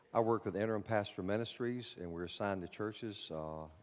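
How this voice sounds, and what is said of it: Speaks with a Bronx accent. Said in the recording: “you'll notice my accent ... I know I picked up some Bronx accent”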